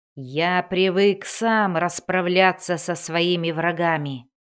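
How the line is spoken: Growled. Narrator (Russian): зарычал он

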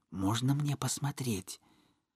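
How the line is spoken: Hesitant whisper. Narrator (Russian): нерешительно шепнула

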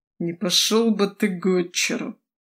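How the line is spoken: Sleep-deprived groan. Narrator (Russian): Простонал невыспавшийся бывший владетель

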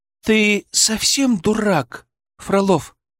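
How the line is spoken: Indignant hiss. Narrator (Russian): возмущенно зашипела она

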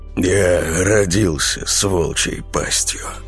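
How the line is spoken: Sighing. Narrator (Russian): зубоскал вздохнул

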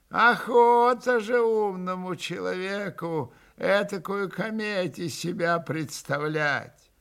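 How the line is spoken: Reproachful drawl. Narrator (Russian): протянул он укоризненно

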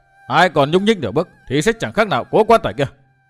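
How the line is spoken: Loud shout. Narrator (Vietnamese): Chàng quát lớn

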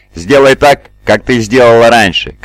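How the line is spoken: Shouted while running. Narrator (Russian): крикнул на бегу Зуши

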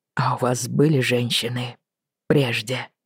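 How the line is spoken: Embarrassed mutter. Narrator (Russian): смутившись, пробормотал Роджер

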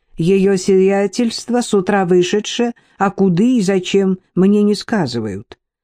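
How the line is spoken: Plain. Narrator (Russian): ответила верная служанка

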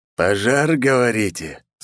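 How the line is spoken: Growling through teeth. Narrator (Russian): сквозь зубы прорычал волк

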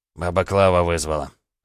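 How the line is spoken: Short laugh. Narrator (Russian): хохотнул Сергей

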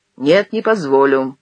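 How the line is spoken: Said dryly. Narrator (Russian): сухо сказал Успенский

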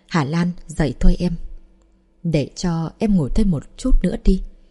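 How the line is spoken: Soft waking call. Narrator (Vietnamese): Diệp Ân Tuấn nhỏ giọng gọi Thẩm Mạn Lan thức dậy

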